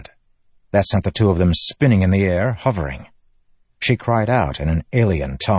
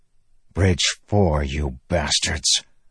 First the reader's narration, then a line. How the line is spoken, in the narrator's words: Moash growled